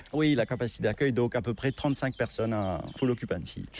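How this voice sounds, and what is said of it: Mauritian-accented French, slightly sing-song. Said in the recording (French): “l'accent, notre accent mauricien, notre patois ... c'est ce français qui est un petit peu ... peut-être un peu chantant”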